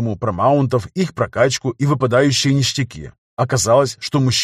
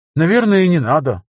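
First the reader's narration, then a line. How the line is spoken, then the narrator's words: Sighing. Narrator (Russian): вздохнул он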